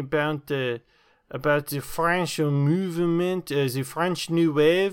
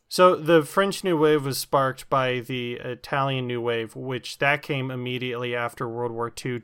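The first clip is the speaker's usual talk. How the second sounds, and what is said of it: Put-on American accent. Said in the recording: “let me speak in my American voice”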